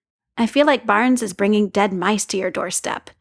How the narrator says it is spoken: says Sam Wilson

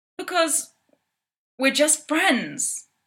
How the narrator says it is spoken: James exclaims

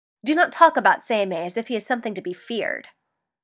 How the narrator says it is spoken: The slight apprehension in Yukihira's words stirred up a rare annoyance in Hiromasa, and he snapped

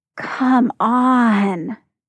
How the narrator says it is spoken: Tyler groans

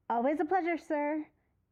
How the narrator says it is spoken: Jim shouts

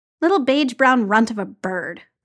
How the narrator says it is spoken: Clint grumbled

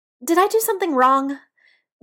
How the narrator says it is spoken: Biddy blurts

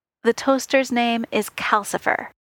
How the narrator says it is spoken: he said, his tone brooking no argument

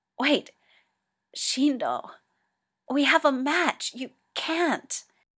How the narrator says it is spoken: Toya gasps

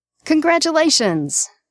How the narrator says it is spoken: exclaims, grinning

